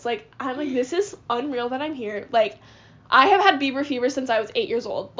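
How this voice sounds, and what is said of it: Emotional, tearful voice. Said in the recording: “I'm crying. I'm getting emotional talking about it right now. I'm, like, crying”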